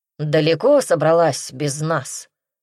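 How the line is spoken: Breathless grumble. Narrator (Russian): проворчал, переводя дух

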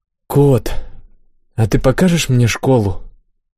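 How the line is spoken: Quiet question. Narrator (Russian): вдруг тихо спросила Имми

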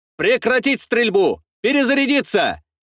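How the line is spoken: Shouting. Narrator (Russian): кричал я

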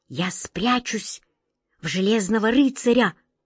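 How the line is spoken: Whispering. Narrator (Russian): прошептала она

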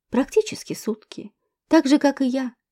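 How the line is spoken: Plain. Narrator (Russian): ответил Денис

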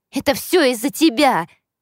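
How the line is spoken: Resentful outburst. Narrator (Russian): обида заставила меня выкрикнуть

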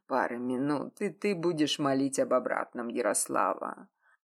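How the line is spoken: Hoarse whisper in ear. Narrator (Russian): Сипло прошептал на ухо Вадим

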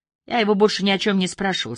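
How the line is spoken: Calm answer. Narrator (Russian): спокойно ответил Дюшарм

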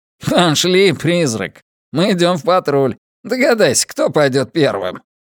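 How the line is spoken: Amused laughter. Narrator (Russian): рассмеялся, потому что ему это казалось забавным

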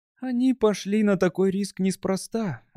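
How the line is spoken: Tired. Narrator (Russian): устало ответила она

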